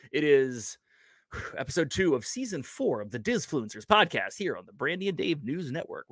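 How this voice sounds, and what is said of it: Newscaster-style announcing voice. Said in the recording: “I got my news voice going”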